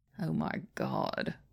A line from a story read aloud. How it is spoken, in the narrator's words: Biddy moans from behind his hands